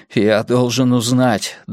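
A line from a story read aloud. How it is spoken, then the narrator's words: Trembling voice. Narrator (Russian): дрожащим голосом сказал Эрик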